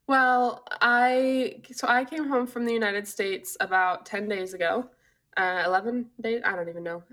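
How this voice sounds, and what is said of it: Sick-sounding voice. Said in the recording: “you sound so sick.”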